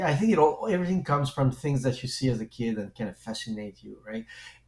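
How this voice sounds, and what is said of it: French accent. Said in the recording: “as you can hear probably, because I do have a French accent”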